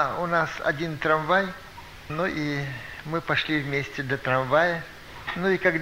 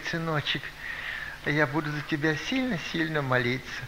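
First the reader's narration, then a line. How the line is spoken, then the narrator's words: Sighing. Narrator (Russian): Она вздохнула, говорит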